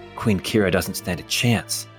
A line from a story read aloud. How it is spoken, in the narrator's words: Bortimus mutters to himself